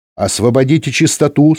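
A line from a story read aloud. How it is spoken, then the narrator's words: Stern female voice. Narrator (Russian): строго сказала женский голос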